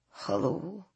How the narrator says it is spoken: she said in a very soft, gravelly voice

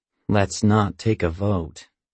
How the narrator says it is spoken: I mutter

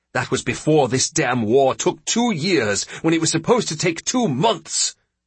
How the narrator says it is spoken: the senator snapped

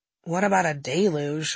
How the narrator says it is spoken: I said

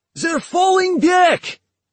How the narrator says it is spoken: a soldier shout

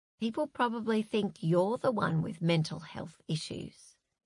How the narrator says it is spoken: murmured Zoe

